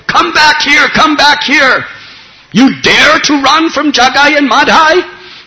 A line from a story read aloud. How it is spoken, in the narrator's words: Jagai and Madhai were screaming out